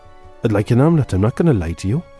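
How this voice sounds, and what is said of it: Strained attempted Welsh accent. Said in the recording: “It's a terrible accent. I can't do the Welsh accent... I got it there... A bit more strained than it'd be Uncle Bryn.”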